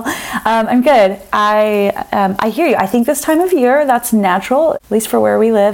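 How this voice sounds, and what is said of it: Froggy, congested hoarse voice. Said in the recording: “my voice sounds a little bit froggy ... all the head stuff is happening ... very sexy voice ... It's not quite the sexy kind.”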